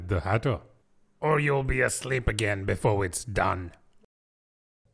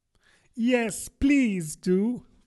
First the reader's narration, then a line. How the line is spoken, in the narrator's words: pleaded Alice